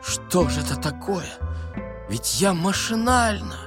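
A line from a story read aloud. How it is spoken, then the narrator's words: Sorrowful whisper. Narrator (Russian): Шура горестно шептал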